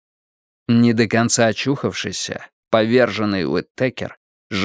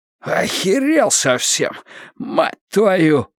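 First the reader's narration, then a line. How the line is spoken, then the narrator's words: Hoarse wheeze. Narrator (Russian): просипел Уиттекер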